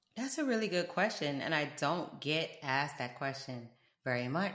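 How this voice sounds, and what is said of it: South Florida accent, slight British traces. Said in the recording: “I'm from South Florida. That's where this accent come from. And sometimes people will be like, sound like maybe you from New York ... you might hear a little something going on, but I'm from the UK”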